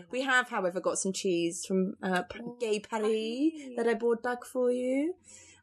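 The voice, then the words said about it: Put-on French accent. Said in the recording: “What accent was that? ... It's my French accent.”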